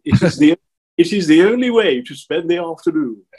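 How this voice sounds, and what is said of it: Posh exclusive English accent. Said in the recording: “as they would say in a very exclusive English accent”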